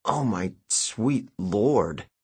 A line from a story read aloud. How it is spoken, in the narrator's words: I sputtered, choking down a mouthful